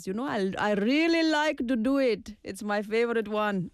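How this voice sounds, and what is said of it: Cartoon character voice with accent. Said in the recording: “doing the King Julian voice ... King Julian's accent, for me, I don't know where the accent is from”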